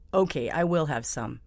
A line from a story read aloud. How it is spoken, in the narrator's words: Mario said